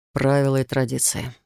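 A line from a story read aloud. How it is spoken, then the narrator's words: Quiet but firm reminder. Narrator (Russian): тихо, но твердо напомнил Рейган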